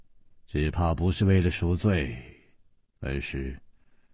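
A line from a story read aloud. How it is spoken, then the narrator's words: Sighing. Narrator (Chinese): 楚留香叹了一口气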